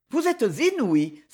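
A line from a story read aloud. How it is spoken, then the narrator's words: Exclaiming. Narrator (French): s'exclama Thérèse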